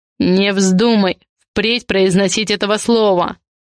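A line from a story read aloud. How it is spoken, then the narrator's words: Furious growl. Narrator (Russian): Яростно прорычал Адриан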